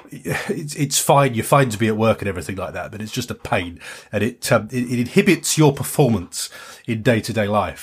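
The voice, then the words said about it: Nasal, congested voice from cold. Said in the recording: “came down with another cold ... streaming nose, all clogged up ... you can probably still hear it in my voice now ... I'm still very nasally now”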